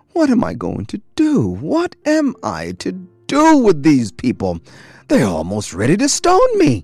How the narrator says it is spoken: cried out

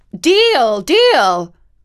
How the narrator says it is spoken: called out Queen Mab

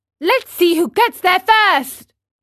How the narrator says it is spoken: cried Pinocchio

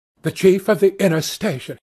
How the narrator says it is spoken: he answered in a short tone

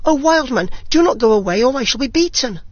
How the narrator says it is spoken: He called and cried after him

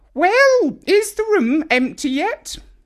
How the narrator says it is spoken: Grandma called out

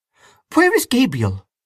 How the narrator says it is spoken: she cried

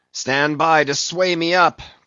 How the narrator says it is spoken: cried Ahab

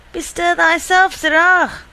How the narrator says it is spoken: cried

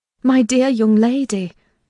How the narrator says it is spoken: I exclaimed

